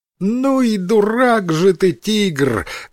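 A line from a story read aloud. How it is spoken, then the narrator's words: Loud laughter. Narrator (Russian): громко рассмеялась обезьяна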